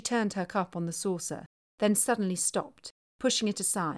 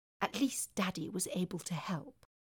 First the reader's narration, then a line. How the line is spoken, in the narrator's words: she whispered